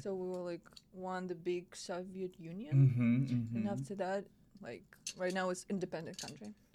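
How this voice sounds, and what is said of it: Speaks English with a foreign accent. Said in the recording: “you have an accent”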